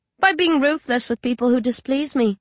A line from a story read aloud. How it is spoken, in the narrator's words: Vicky says flatly